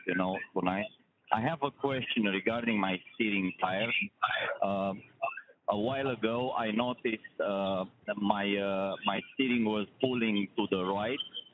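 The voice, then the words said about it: European-accented English. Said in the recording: “I want to apologize on my accent. You know, I'm from Europe”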